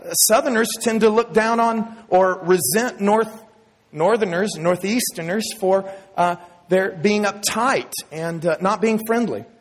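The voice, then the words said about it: Texas Southern accent. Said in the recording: “my Texas accent”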